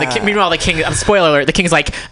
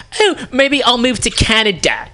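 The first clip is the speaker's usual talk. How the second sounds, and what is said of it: Poor British accent impression of king. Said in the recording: “He doesn't talk like that at all. I can't do British. That's like not even his accent at all.”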